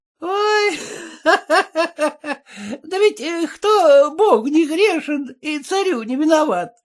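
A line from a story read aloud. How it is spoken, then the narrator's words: Laughing cook. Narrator (Russian): засмеялась кухарка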